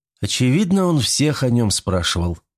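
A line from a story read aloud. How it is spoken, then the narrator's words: Sighing. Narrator (Russian): вздохнула Олеся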